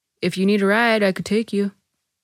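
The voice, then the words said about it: Calm deep male character voice. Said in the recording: “my guy impression ... a calm, deep voice”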